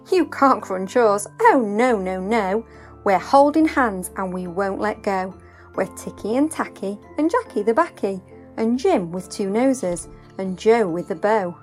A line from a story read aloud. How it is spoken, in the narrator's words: the paper dolls laughed and sang